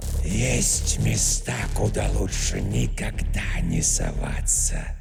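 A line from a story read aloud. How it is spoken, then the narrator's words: Two-mouthed unison whisper. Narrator (Russian): прошептала темная тварь в унисон обоими ртами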